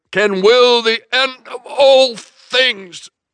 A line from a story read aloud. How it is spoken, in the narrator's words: boomed Carrie